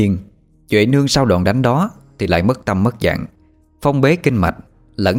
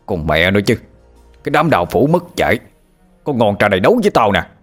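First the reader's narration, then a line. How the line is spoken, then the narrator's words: Shouted. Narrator (Vietnamese): Bãi Sâm quát lên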